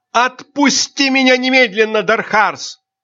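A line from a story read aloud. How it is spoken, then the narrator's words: Screaming while struggling. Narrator (Russian): закричала Айрин, пытаясь вырваться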